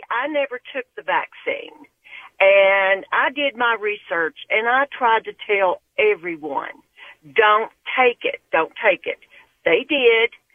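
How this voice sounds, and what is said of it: Tennessee Southern accent. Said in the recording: “That Tennessee accent never gets old”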